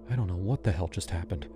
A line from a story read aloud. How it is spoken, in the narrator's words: I whispered